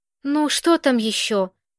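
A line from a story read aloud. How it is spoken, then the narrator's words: Deliberately weary, fed up. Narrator (Russian): нарочито устало спросил Вешний, желая показать, как ему надоело опекать беспомощных людей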